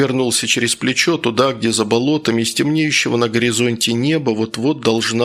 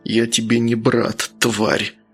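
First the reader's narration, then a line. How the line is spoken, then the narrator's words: Hateful, through gritted teeth. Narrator (Russian): процедил Луканов, ненавистно смотря в глаза майора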